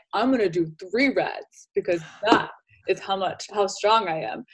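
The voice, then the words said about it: Deeper macho guy voice. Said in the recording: “I love how your voice got deeper.”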